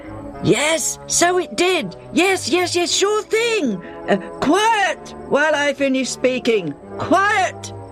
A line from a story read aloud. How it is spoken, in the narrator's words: shouts